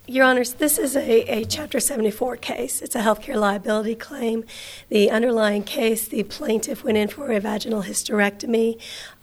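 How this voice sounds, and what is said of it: Hoarse, failing voice. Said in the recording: “I am losing my voice, so it is going to be painful to listen to me today ... If I start squeaking”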